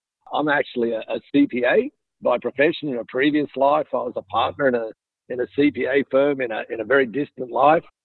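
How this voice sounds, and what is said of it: Australian accent. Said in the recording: “you can probably tell by now with my accent that I wasn't born in Mississippi. I was actually born a little bit further south in Sydney, Australia.”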